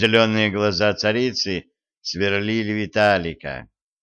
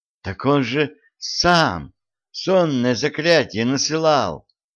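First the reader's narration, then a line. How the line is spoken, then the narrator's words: Indignant queen exclaiming. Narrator (Russian): негодующе воскликнула царица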